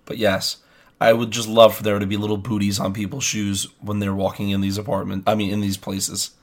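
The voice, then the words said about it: Sick, rough-sounding voice. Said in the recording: “really sick right now... my voice is terrible”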